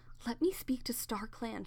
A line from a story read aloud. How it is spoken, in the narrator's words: she begged